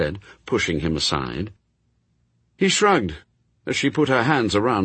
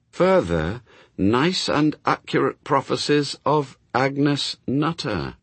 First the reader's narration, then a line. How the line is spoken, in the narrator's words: she read slowly